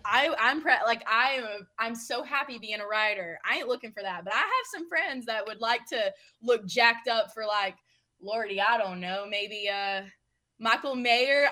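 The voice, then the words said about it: Southern American accent. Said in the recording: “the Southern accent shining through is a delight as well, as always”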